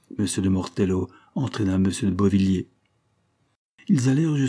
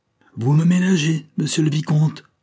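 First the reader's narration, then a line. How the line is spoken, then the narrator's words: Prince shouting, beside himself. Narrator (French): cria le prince, hors de lui-même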